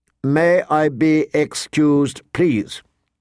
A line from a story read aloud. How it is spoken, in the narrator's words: she recited stiffly